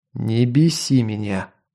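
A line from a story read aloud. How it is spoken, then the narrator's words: Growl. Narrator (Russian): прорычал я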